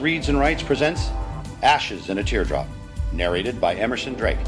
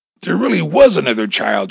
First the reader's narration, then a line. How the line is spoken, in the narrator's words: gasped